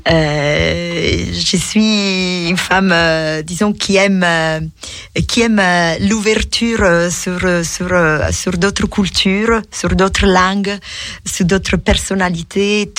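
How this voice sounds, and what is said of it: Strong foreign accent in French. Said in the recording (French): “C'est vrai que ton accent est encore très prononcé”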